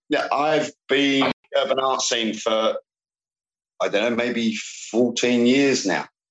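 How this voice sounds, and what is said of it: London English accent. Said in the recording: “you obviously have a London accent”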